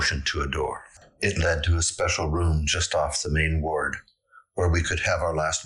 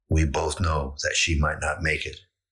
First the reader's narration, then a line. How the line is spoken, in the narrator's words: Linda had said